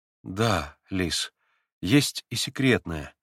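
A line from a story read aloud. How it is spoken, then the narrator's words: Sad. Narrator (Russian): грустно произнес Алеша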